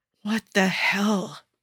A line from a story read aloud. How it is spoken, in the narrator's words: She whispers